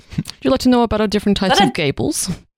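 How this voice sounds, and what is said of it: Bad put-on Dutch accent. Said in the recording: “Is that a Dutch accent? ... our Dutch accents are actually just absolutely appalling”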